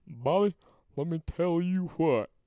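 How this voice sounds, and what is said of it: Hank Hill impression. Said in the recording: “I used to be able to do a good Hank impersonation ... Hank Hill. He's from King of the Hill.”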